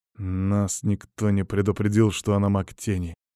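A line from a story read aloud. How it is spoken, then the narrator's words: Through gritted teeth. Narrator (Russian): сквозь зубы процедил дядя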